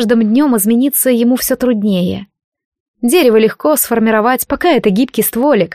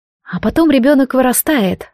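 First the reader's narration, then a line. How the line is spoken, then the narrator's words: Sighing. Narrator (Russian): вздохнула Джад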